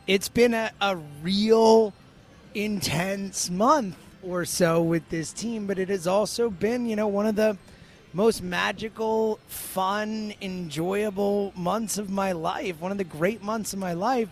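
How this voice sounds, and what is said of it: Strained, partly lost voice. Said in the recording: “as you can hear, my voice is not all the way there, and I've lost it multiple times over this run.”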